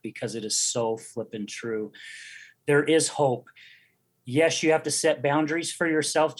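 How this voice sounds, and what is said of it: Emotional, choked-up speech. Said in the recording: “I get emotional talking about it”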